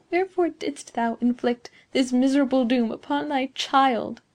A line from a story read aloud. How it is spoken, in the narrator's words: said Beatrice feebly